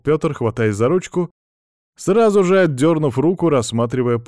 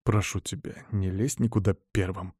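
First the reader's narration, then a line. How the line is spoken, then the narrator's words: Whisper. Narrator (Russian): прошептал я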